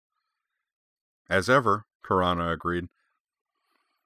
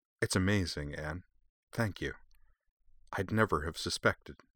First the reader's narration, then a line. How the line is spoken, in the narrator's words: she added quietly